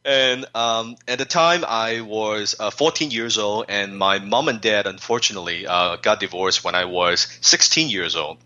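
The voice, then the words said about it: Non-native English accent. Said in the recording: “not a word of the English language on my lips, as you can tell from my accent... Some of my friends, they say I still speak like Jackie Chan”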